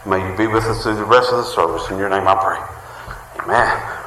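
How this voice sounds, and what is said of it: Breathless, winded speaking. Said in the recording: “Whew. I'm almost out of breath.”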